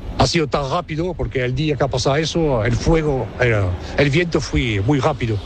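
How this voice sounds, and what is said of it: French speaker with Almerian Spanish accent. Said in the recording (Spanish): “francés con acento almeriense”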